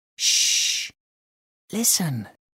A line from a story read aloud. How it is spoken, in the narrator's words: he whispered